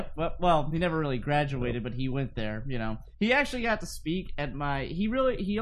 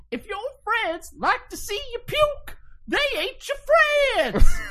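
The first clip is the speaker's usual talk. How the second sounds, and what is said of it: Imitates another person's voice. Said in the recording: “best Bill Cosby impression I've ever heard in my life ... best Bill Cosby I've ever heard”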